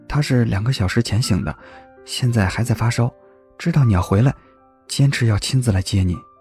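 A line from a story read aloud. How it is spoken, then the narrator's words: Sudden low voice. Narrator (Chinese): 阮炳突然低声说道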